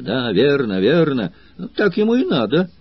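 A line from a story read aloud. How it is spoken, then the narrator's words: Crowd exclaiming in unison. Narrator (Russian): все единодушно воскликнули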